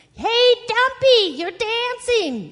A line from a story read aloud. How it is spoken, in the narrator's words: yelled the goose